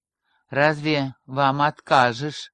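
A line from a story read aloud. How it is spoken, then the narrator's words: Grumbled. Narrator (Russian): буркнул Ярослав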